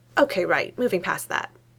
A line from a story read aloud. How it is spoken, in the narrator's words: Rowley says quickly